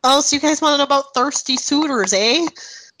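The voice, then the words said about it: Exaggerated Canadian accent. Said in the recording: “Well, you could do more of your Canadian accent”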